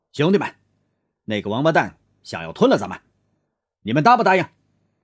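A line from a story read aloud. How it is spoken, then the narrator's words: Sudden loud shout. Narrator (Chinese): 萧天剑猛然大声叫道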